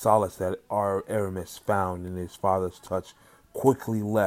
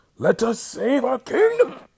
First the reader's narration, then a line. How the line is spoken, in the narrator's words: With a sense of extreme pain from his chest and confusion, the king started gasping for air